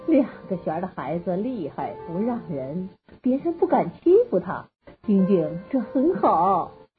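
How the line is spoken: Mother, smiling. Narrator (Chinese): 妈妈笑了笑说

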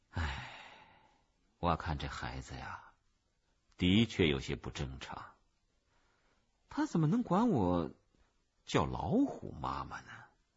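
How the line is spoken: Sighing. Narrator (Chinese): 妈妈叹了口气

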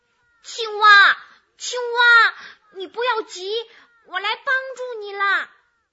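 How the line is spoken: Loud shouting. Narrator (Chinese): 癞蛤蟆……大声的喊着

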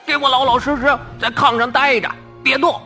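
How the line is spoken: Shouting. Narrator (Chinese): 这个特务叫道

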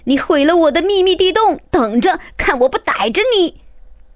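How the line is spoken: Brother shouting. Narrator (Chinese): 哥哥马克大喊

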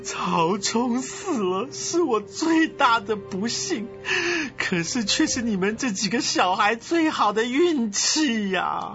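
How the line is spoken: Tearful. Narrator (Chinese): 曹操啊，痛苦的是痛哭流涕啊…曹操却指着曹丕的鼻子说

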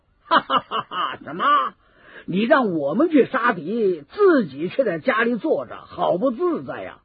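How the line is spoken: Hearty laughter. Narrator (Chinese): 张飞听了一阵哈哈大笑

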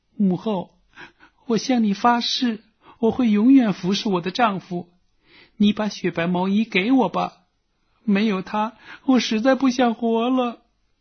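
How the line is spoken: Crying. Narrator (Chinese): 妻子哭着说

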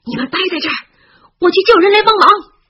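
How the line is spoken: Shouting over howling wind. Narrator (Chinese): 他在呼啸的狂风中喊着

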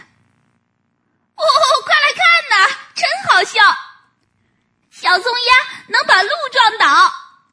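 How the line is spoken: Laughing, shouting little animals. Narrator (Chinese): 小动物们哈哈大笑 喊叫着

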